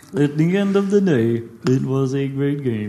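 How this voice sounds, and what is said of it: Imitated voice, slightly Dutch-sounding. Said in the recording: “an impression of, like... Stephen Hawking... it sounded a little bit like a Dutch accent as well”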